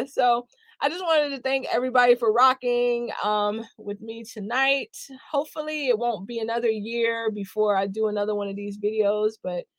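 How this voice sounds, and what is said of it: Strained, squeaky tired voice. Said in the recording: “my voice is starting to sound like some kind of Muppet”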